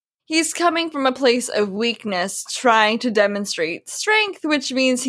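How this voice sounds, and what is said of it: Usual voice. Nothing is said of it.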